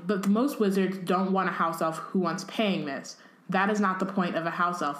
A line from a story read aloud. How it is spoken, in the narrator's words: they said